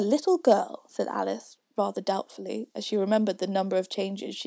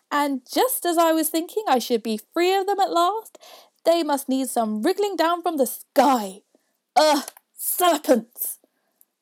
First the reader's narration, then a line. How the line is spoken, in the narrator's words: continued the pigeon, raising its voice to a shriek